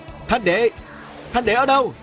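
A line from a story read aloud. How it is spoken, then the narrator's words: Loud calling out. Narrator (Vietnamese): Viên Thừa Chi lớn tiếng hô hoán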